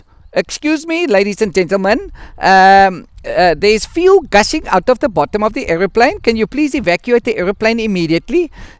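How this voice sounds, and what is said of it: Put-on Indian accent. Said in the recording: “just like a good Indian accent.”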